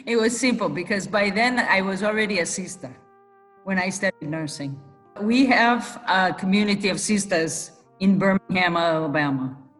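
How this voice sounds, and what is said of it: Mixed Italian, British and Southern accent. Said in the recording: “her accent has strayed far from her Western Michigan upbringing ... The accent is 5 years in Italy, so talking Italian. 27 years in Kenya, where the English is really the British English. So it's a mixture of accents. Plus, I studied in Alabama.”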